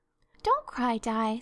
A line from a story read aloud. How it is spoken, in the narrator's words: said Anne cheerfully